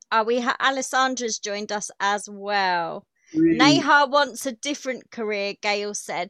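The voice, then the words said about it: Common British accent. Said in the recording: “love your accent. It's because I'm British. Here I'm very common. Believe me, it's a common accent.”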